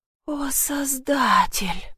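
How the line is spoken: Whisper. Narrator (Russian): прошептала

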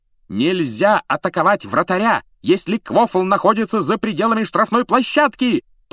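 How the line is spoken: Shrill yelling. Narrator (Russian): пронзительно завопила она

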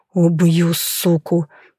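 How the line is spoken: Hissing through clenched teeth. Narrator (Russian): прошипел я, сжимая зубы

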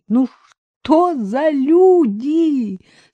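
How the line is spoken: Scolding through laughter. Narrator (Russian): сквозь смех выговаривала Ольга Александровна

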